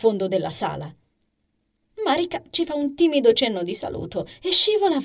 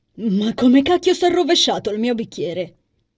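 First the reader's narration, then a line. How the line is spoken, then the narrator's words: Exclamation after silence. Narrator (Italian): esclama Daniel dopo qualche attimo di silenzio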